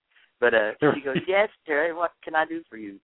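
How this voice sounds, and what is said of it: Bad English accent, hillbilly-tinged. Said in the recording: “I do a bad English accent, by the way. My hillbilly accent, hillbilly English.”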